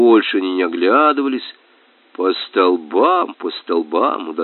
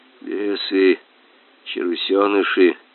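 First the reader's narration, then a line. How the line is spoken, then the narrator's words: Muttering. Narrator (Russian): бормотал капитан-фотограф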